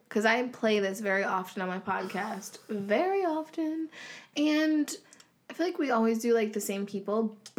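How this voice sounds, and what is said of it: Hoarse, fading voice. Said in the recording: “I'm losing my voice, you guys, by the way. I've been losing it for, like, days.”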